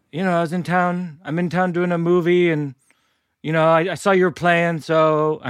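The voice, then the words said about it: Impression with Irish accent. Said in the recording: “he has an Irish accent for some reason in my impression.”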